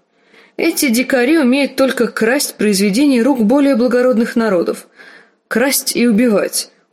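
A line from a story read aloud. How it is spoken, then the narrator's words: Loud laughter. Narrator (Russian): он расхохотался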